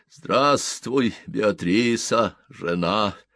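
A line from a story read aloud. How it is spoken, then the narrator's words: Sepulchral voice. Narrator (Russian): сказал он за могильным голосом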